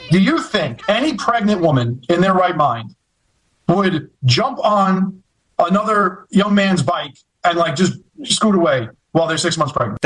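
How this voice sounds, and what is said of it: Heavy New York accent. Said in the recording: “that heavy New York accent”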